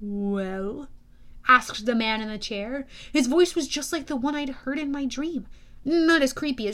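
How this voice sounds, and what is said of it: Usual voice. Nothing is said of it.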